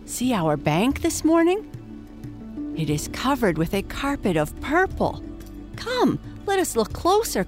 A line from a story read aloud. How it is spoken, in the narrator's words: cried